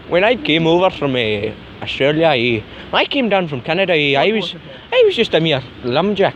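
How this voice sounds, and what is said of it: Put-on foreign accent. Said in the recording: “I put on an accent. ... Isn't that Irish?”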